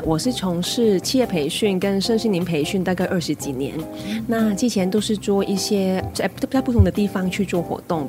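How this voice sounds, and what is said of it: Hong Kong accent in Mandarin. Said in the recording (Chinese): “很可爱的口音 ... 我奇怪可爱的口音 ... 我是香港人 ... 那个口音还是。怪怪的”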